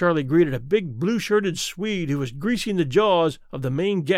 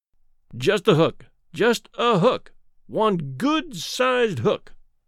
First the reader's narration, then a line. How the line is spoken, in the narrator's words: Charlie pleaded